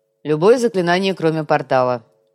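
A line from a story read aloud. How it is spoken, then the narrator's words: Snorting, amused. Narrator (Russian): хмыкнул Гуга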